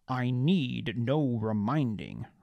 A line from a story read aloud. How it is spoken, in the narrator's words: Rox growled